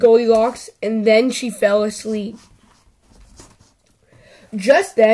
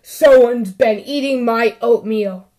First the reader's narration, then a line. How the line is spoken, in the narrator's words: Papa Bear growled